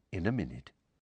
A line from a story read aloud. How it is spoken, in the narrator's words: Lupin said quietly